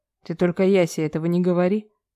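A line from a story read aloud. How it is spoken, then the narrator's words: Short laugh. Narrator (Russian): хохотнул Стальнов-старший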